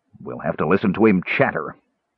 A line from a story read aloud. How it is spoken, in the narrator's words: the captain grumbled irritably